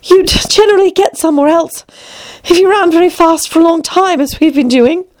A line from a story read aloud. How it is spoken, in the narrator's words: said Alice, panting a little